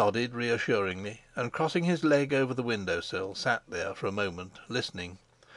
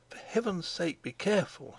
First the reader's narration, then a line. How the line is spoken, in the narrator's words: she murmured